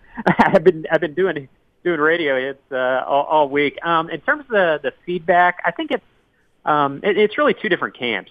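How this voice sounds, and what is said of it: Hoarse, strained voice. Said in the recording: “You can probably tell I'm kind of losing my voice.”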